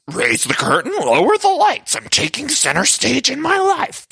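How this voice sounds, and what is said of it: Poor Luann impression, Cookie Monster-like. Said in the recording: “My Luann impression is not good. It's really just the Cookie Monster.”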